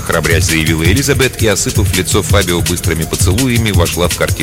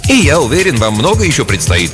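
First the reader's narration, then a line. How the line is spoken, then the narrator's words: Forced cheerfulness. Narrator (Russian): кивнул ему Фабио нарочито бодро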